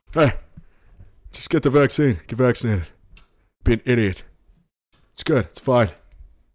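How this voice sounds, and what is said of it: Silly dopey character voice. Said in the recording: “doing that stupid voice. It's like Putty from Seinfeld.”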